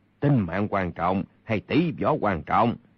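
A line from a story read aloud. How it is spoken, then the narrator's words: Cold. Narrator (Vietnamese): Kha Trấn Ác lạnh lùng nói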